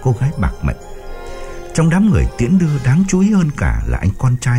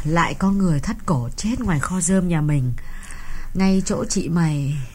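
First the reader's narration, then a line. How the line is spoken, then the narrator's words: Mournful sigh. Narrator (Vietnamese): Bà Chánh thở dài não nuột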